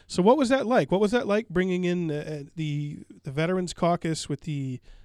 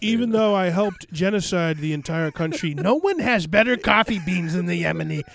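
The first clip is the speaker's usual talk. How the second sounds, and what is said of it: Donald Trump impression. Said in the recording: “a Trump impersonation”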